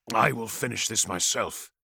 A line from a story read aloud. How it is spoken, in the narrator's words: growled Phostos